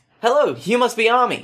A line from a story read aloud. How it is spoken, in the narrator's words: she said brightly